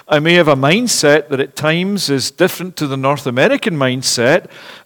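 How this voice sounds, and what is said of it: Non-North American accent. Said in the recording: “I may have an accent that's a bit different even after 25 years, it's still there.”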